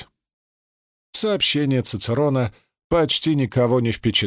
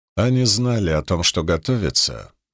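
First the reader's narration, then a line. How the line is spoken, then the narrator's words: Grim remark. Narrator (Russian): мрачно обронил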